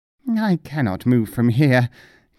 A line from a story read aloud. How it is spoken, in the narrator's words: gasped the mullah